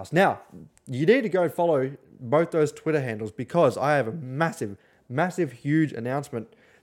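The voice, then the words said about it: Tired, slurred speech. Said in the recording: “Sorry, I'm very tired. I'm slurring my words.”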